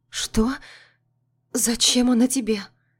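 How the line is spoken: Frightened question. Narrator (Russian): испуганно спрашиваю

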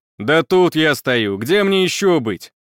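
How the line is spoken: Slightly irritated. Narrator (Russian): Откликнулся Виттелли немного раздраженно

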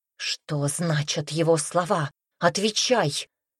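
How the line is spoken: Angry whisper. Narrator (Russian): злобно прошептала она, опасаясь снова привлечь ненужное внимание

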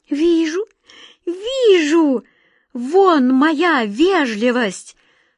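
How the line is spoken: High desperate cry. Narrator (Russian): Тонким голосом отчаянно вскрикнула Катя

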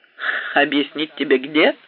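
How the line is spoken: Laughing. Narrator (Russian): засмеялся я

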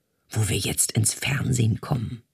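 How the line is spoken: Whispered. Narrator (German): flüsterte sie Isabella zu

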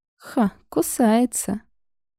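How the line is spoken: Laughing. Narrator (Russian): засмеялась Мила

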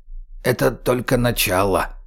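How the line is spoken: Quiet creaky voice. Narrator (Russian): тихо проскрипел Гоша

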